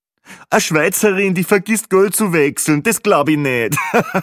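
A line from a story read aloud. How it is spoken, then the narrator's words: Joking remark. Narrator (German): der zweite lustige Kommentar von Peppi Gruber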